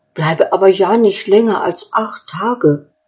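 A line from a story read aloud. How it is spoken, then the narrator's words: Animal calling after her. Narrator (German): das Tier rief ihr noch nach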